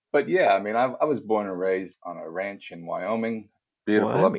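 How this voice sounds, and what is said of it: American accent. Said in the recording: “as you can tell by my voice, I'm not a native Australian by any means. I actually was born and raised in the US... haven't dropped the accent at all”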